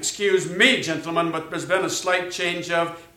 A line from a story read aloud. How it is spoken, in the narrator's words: in his best imitation of Dudek snapped